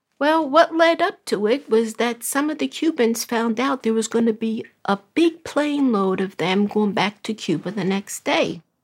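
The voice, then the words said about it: Brooklyn accent. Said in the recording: “is originally from Brooklyn. Maybe you can tell by her accent.”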